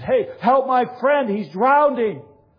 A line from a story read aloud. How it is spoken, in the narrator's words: Taylor shouts at them and says